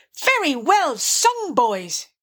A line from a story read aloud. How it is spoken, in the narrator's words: cried the rat heartily